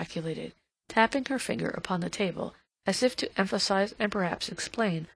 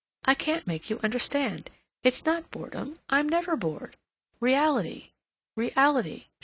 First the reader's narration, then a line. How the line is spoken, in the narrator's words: she exclaimed, as if the subject chafed her